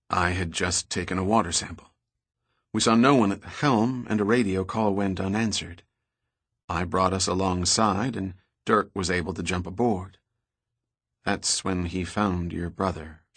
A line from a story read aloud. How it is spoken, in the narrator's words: she said, her voice trailing off